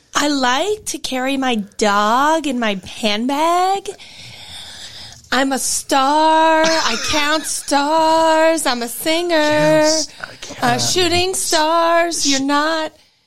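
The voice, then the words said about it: Paris Hilton impression. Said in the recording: “do an impression ... Paris Hilton? ... Yes.”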